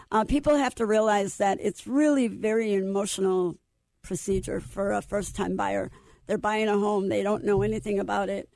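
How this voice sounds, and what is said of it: Hoarse, fading voice. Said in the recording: “I apologize for my voice. I'm losing my voice”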